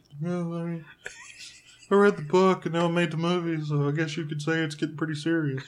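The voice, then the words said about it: Imitates Kip from Napoleon Dynamite. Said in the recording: “he totally sounded like somebody ... that impression ... does ... Kip from the Blaine Dynamite”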